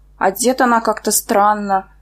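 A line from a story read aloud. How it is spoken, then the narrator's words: Embarrassed mutter. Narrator (Russian): пробормотала, отчаянно смущаясь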